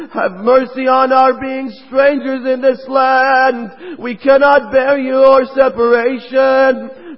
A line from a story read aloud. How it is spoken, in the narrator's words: They all pleaded to him